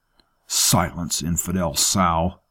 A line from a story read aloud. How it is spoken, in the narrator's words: hissed